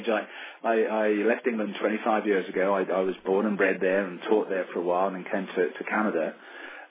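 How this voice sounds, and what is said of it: English accent. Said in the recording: “obviously from your accent, that's where you come from originally”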